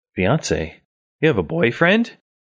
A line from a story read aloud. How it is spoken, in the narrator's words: you exclaim suddenly